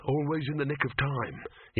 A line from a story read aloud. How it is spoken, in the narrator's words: he muttered